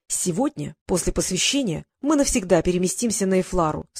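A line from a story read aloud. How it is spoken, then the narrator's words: Plain. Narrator (Russian): сказал Норд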